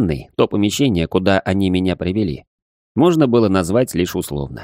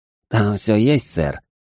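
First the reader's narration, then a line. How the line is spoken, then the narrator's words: Slightly hoarse voice. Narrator (Russian): чуть хриплым голосом ответила толстушка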